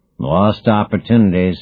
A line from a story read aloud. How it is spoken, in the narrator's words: said Orphu with a rumble